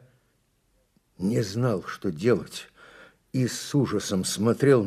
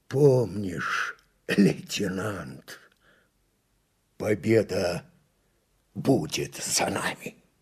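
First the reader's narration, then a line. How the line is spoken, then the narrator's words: Wheezing, breathless. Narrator (Russian): с хрипом, задыхаясь, произнес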